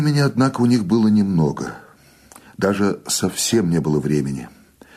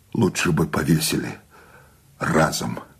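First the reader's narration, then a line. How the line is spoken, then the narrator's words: Despairing exhale. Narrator (Russian): с отчаянием выдохнул Сущение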